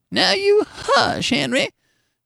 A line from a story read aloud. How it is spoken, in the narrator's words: his wife would caution him in a cracked and squeaky voice